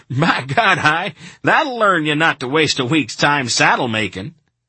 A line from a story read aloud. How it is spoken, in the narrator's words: one of them hollered